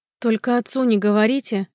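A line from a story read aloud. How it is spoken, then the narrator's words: Pleaded plaintively. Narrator (Russian): Попросил так жалобно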